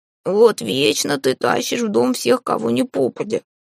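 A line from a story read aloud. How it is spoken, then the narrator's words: Grumbling cat. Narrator (Russian): проворчал кот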